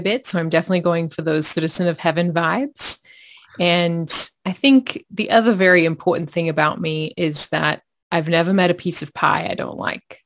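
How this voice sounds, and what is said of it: Australian accent. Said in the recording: “you can probably hear part of my story just with my accent. I'm originally from Australia”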